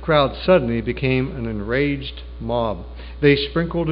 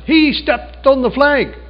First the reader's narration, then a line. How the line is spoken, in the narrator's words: Someone shouted